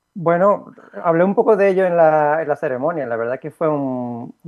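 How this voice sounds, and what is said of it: Spanish accent from Spain. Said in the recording (Spanish): “escuchar tu acento cuando subiste al estrado me resultó familiar ... ustedes hablan diferente, pronuncian las zetas diferente”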